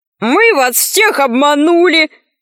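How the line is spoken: Shout. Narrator (Russian): закричал Арамозик

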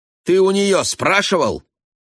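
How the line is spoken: Barked. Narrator (Russian): рявкнула Донна

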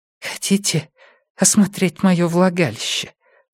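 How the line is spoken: Whispered. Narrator (Russian): прошептала она

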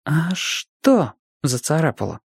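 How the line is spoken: Uncertain whisper. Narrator (Russian): неуверенно шепнул Чибис

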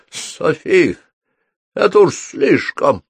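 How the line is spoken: Hoarse rasp. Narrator (Russian): прохрипел он

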